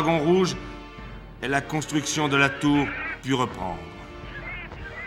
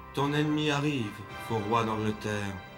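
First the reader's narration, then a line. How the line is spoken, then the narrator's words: Whispering voice. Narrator (French): murmura une voix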